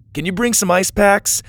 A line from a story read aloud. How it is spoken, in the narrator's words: Doug shouted at the speaker